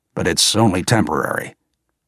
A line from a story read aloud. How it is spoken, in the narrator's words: muttered Quinn by way of explanation